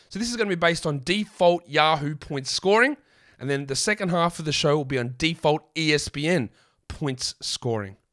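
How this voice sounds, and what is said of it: Croaky voice. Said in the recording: “My voice is croaky.”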